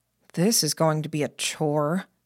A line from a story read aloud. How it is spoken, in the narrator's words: Jamie murmured